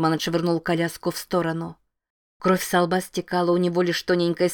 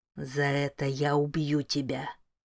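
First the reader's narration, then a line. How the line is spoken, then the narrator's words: Whisper. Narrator (Russian): прошептал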